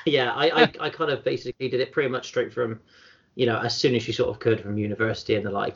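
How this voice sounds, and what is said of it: Bristol English accent. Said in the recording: “I grew up in sort of Bristol, as you can probably tell from my accent.”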